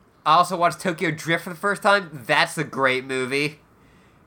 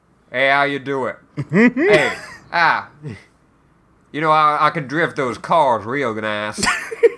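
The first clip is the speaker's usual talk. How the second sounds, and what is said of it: Exaggerated put-on southern accent. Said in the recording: “the main dude has the biggest southern accent.”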